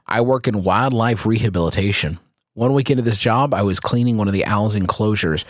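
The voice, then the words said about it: Gravelly deep narrator voice. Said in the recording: “a new narrator voice? ... It sounds like you've got 4 or 5 Cohibas going in there.”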